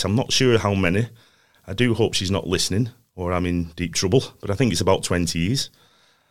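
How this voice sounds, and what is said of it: Northern English Lancashire accent. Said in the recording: “As you can probably tell by the accent, I'm from the north of England. Lancashire, in fact. Blackburn, Darwen. So hence the accent”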